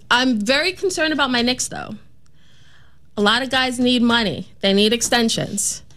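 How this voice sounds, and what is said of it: Put-on New York accent. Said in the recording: “I love when she does her New York accent. It's so great.”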